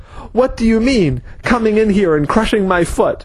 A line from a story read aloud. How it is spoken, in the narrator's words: the man was yelling